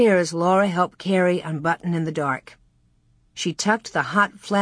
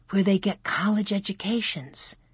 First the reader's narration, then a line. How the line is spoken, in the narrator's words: whispered Laura